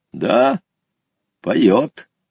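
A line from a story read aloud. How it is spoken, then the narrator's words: Calm old man. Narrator (Russian): спокойно ответил дедушка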